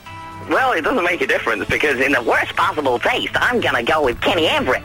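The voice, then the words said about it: High-pitched imitation of another person's voice. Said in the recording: “That's a good impression ... That is good. Have you got a helium balloon beside you?”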